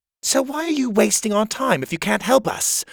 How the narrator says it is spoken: Coglin said irritably

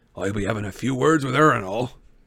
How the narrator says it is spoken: said Hagrid, grimly

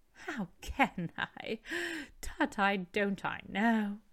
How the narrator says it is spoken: she added in the same breath, laughing as he laughed

